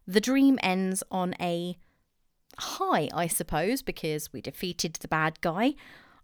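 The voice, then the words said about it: English accent. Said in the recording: “sorry for my accent. ... I'm too English.”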